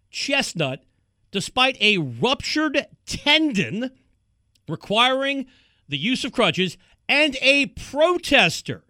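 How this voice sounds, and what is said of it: East Coast American accent. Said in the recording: “East Coast accent is out today”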